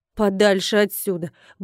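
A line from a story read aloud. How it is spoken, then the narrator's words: Grumbled. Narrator (Russian): буркнула трактирщица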